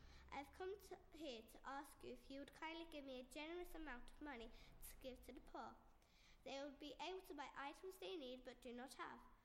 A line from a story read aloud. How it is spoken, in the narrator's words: Veronica nervously replied